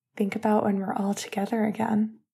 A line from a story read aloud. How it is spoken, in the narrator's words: Finn whispered